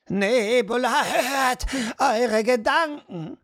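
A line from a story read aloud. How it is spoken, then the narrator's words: Old woman calling out. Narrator (German): rief die alte Frau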